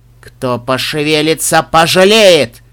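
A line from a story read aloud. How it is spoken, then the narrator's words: Thunderous woman's voice. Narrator (Russian): прогремела принцесса ночи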